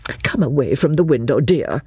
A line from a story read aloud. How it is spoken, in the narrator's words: said Miss Bartlett